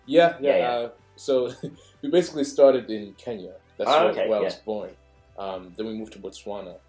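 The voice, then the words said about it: Mixed South African, Northern Irish, English accent. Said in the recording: “You've got like a mix. You've got like South Africa, and then when you go to like Northern Ireland, and then England mix as well.”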